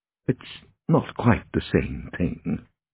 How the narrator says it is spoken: murmured Oscar

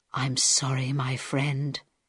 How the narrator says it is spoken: he whispered

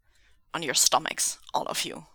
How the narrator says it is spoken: he barked

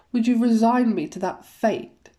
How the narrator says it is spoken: Wanu sighs as loudly as he can

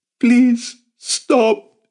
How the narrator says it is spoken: she begged

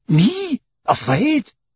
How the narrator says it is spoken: exclaimed Passepartout

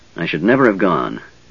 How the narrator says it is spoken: he muttered

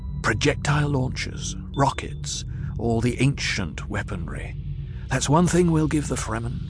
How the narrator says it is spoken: Paul whispered

